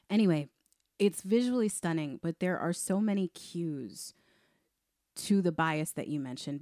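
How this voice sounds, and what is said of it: Strained, tired voice nearly lost. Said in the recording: “I am on the struggle bus today. So please don't judge us if you're a new listener on how this sounds, because I'm trying my best here to not lose my voice.”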